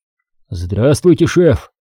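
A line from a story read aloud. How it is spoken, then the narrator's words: Slightly hoarse. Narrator (Russian): немного хрипловатым голосом ответил Виктор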